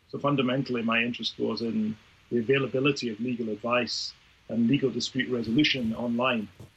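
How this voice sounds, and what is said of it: Slight Scottish accent. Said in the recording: “I'm a Scots lawyer by background, actually. You may hear the trace of my accent. ... I hear a little ... Scots.”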